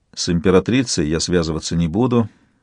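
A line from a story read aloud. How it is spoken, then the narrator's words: Gloomy. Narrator (Russian): сказал мрачно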